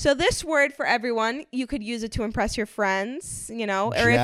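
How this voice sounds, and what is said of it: Usual voice. Nothing is said of it.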